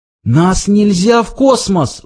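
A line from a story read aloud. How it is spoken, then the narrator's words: Pleading. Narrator (Russian): взмолился Форд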